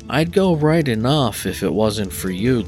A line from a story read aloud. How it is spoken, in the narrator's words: George answered gloomily